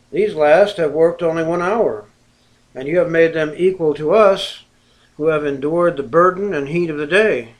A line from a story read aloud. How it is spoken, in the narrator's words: they murmured against the householder, saying